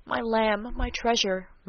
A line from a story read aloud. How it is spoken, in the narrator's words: murmured the loving though rugged sire